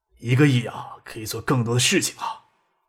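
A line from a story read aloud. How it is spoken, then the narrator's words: Soft sigh. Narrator (Chinese): 薛平轻轻一叹，说道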